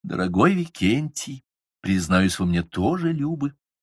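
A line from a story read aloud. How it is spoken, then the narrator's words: Affectionate. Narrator (Russian): она ласково молвила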